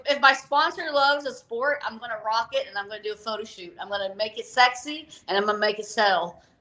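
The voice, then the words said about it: Southern American accent. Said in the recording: “I even have a Southern accent.”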